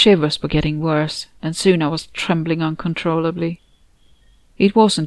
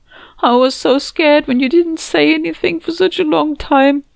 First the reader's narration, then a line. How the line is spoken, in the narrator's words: sobbed